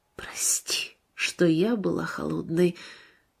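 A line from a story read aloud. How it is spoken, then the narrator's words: Whispered. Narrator (Russian): Марина прошептала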